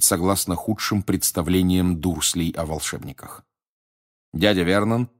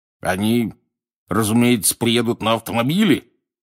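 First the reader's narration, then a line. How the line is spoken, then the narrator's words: Growled. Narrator (Russian): зарычал дядя Вернон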